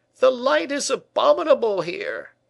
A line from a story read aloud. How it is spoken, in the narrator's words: cried the vexed painter